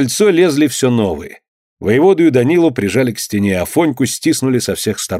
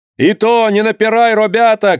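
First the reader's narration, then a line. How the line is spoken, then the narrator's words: Shouting from porch. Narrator (Russian): крикнул кто-то с крыльца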